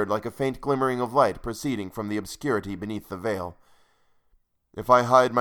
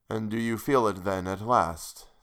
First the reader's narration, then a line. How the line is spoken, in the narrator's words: said he mournfully